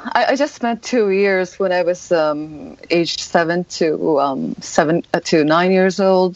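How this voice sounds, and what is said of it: Good American-sounding English accent. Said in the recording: “this amazing American accent or genuine accent ... the accent is pretty good”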